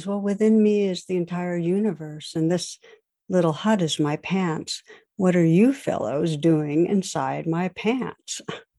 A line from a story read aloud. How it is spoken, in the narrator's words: the sage calmly replies